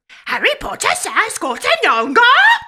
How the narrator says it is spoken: Dobby squealed in astonishment

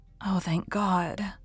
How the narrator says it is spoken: murmured Mrs

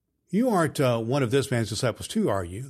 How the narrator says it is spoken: they asked Peter

